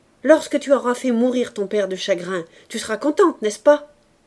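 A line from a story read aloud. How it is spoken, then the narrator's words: Mother shouting. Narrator (French): criait la mère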